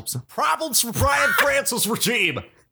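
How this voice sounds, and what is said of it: Rick Allen announcer impression. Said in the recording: “That's the best Rick Allen impression I've heard.”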